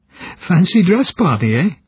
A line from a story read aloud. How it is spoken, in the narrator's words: Smar giggled